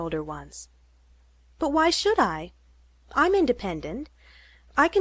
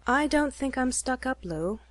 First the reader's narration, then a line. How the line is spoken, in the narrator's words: said Nancy